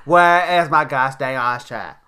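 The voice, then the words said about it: Put-on unidentified accent. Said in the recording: “I don't know what accent that is”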